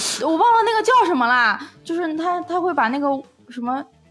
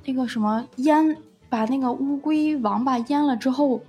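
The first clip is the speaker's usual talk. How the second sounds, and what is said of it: Speaking in a hushed voice. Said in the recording (Chinese): “没必要小声，没必要小声”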